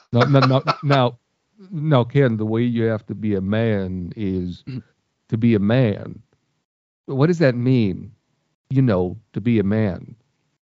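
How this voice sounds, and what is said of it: Poor imitation of another person's voice. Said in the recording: “That's a terrible Stallone impression.”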